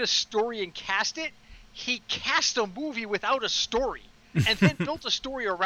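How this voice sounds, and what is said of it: Usual voice. Nothing is said of it.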